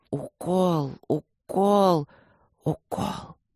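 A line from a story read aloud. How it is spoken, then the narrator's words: Desperate, through clenched teeth. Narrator (Russian): отчаянно сжимая зубы, процедил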